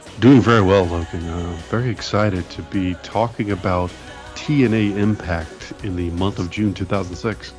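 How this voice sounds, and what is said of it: Mock NPR radio voice. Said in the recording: “doing this whole episode in an NPR voice”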